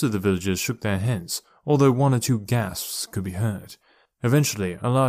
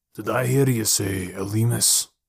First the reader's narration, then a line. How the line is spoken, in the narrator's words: he asked gravely